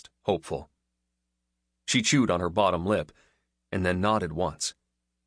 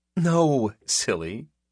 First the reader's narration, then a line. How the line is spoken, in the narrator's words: she laughed